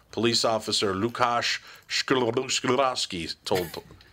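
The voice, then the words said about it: Polish-accented pronunciation of a name. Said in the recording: “I'm pretty sure I nailed that one. ... Yeah, Polish name. ... Good accent, too.”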